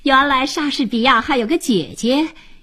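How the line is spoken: Laughing. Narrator (Chinese): 吉姆一边笑着说

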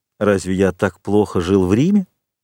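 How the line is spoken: Plain question. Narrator (Russian): спросил Монте-Кристо

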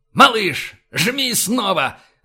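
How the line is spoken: Barked. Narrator (Russian): рявкнул Файн

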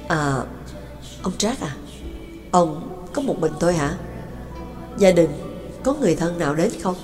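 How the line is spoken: Hesitant question. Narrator (Vietnamese): một vị bác sĩ họ Đại mới ngập ngừng hỏi

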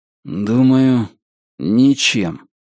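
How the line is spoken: Gloomy reply. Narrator (Russian): мрачно ответил Ричард

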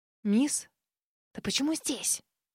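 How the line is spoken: Hissing. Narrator (Russian): Прошипела

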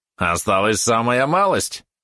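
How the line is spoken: Snide yap. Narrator (Russian): ехидно тявкнул Валерон

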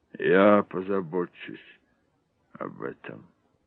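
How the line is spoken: Muttered. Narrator (Russian): пробормотал он

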